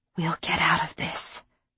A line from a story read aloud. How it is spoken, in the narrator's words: I whispered again